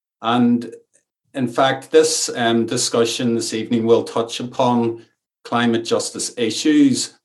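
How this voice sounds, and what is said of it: Irish accent. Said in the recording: “You'll maybe detect from my accent that I'm Irish”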